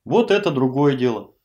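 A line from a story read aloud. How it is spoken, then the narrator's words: Genial booming. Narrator (Russian): благодушно прогудел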